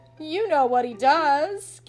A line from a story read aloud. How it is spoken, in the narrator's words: gasped Bert, who was laughing so hard he could scarcely speak